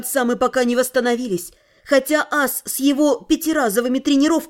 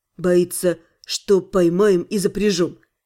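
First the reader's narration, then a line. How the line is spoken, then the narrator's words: Serious tone. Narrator (Russian): серьезным тоном сообщил Аскани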